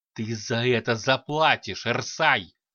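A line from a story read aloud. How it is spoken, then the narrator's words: Angry hiss. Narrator (Russian): Злобно прошипел Единый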